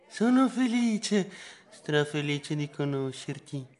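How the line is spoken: Whisper in ear. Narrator (Italian): mi sussurrò all'orecchio

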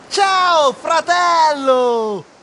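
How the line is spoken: Ghost yelling at full voice. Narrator (Italian): Il fantasma urlò a squarciagola

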